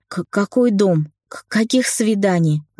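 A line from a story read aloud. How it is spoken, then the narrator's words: Indignant stutter. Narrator (Russian): От возмущения начала заикаться я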